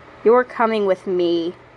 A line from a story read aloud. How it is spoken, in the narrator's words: he growled